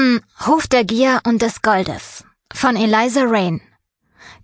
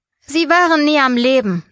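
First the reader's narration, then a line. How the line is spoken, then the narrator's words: Dry, owl's voice. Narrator (German): sagte die Eule trocken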